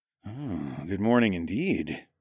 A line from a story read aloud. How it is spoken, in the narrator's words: growled